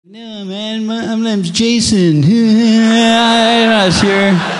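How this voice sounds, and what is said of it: Imitates another person's voice. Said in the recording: “that's my impression of you”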